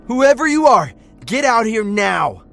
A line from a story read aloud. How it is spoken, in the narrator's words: shouted